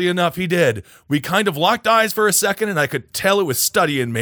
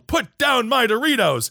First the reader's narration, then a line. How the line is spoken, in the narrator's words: Instinctively, I yelled